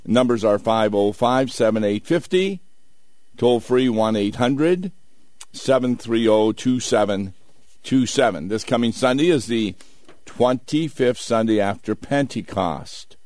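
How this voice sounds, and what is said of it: Low, nearly lost voice. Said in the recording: “my voice is a little low. Almost lost it yesterday when I was preaching”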